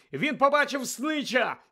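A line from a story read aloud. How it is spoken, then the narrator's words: Shouted. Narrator (Ukrainian): закричав Гаррі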